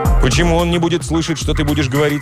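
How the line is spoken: Plain question. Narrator (Russian): спросил художник

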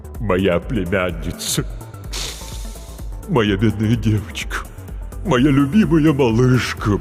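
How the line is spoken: Deep-voiced wailing lament. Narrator (Russian): басом запричитала трагедия

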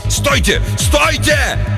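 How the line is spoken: Sudden yell. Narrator (Russian): Хендриксу удалось выйти из оцепенения, и он заорал

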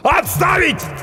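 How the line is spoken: Yelling. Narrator (Russian): орал очнувшийся от ступора доктор

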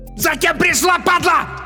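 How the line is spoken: Hysterical yell from behind. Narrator (Russian): истерично заорал сзади Бабич

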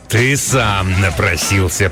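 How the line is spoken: Growl. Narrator (Russian): прорычал он

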